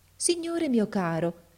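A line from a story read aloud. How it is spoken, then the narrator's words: Very affectionate voice. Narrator (Italian): gli disse con voce molto affettuosa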